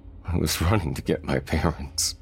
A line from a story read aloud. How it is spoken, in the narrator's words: Thomas choked out between sobs